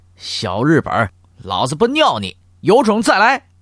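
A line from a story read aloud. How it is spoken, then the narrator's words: Angry shouting and cursing. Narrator (Chinese): 孙传芳嘴里仍然气哼哼的，还在高喊大骂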